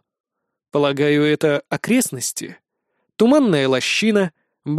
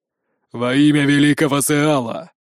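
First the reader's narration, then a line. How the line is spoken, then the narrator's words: Muffled voice. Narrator (Russian): глухо произносит он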